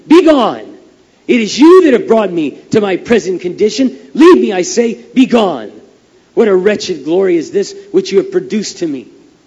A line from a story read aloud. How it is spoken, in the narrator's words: as his distress was increased by their presence, he repeatedly and loudly exclaimed